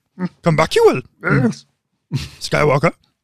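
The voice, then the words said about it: Yoda impression, inverted speech. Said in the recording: “I like your impression, dude. Very good. Spot on.”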